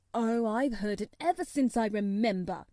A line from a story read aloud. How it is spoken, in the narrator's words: he answered crossly